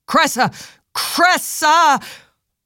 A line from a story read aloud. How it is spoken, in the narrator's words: Face rigid in shock, Ambrose yelling